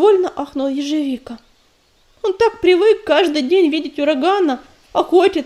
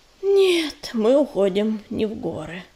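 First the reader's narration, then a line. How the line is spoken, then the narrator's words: Hesitant sigh. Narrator (Russian): помявшись, вздохнул ураган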